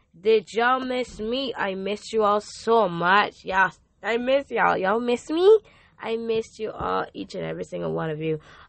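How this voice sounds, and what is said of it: Slightly hoarse, worn-out voice. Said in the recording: “My voice is a little bit gone”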